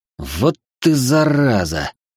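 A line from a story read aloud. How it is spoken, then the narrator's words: Hiss. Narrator (Russian): прошипел Мирон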